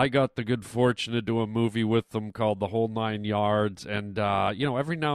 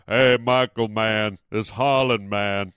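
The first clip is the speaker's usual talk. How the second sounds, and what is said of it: Deep imitated voice. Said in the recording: “I always do his voice. ... I can't go as deep as him ... I do deep voices”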